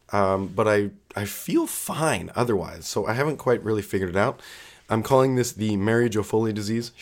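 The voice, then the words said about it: Sick, rough-sounding voice. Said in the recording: “I sound terrible ... it's in my chest or whatever, and obviously impacting my voice ... I generally don't sound this much or like a dumpster fire like this”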